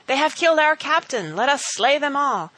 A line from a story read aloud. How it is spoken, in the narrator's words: When Wat Tyler's men saw him fall, they called out